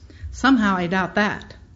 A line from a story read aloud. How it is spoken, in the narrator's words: I said